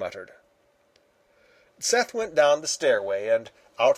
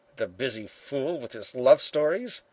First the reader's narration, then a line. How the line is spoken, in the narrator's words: he muttered